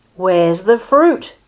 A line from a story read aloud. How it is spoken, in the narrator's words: she shouted, thinking that the boy had eaten it